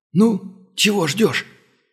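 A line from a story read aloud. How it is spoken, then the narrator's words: Wheezy rasp. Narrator (Russian): вновь просипел монгол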